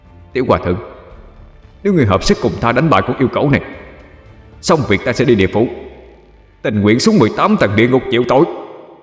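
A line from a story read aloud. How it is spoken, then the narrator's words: Loud. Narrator (Vietnamese): Lưu Tình lớn tiếng nói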